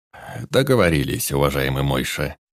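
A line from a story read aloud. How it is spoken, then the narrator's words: Velvety husky mumble, broken accent. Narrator (Russian): прозвучало его бархатное, чуть хрипловатое бормотание на ломаном местном наречии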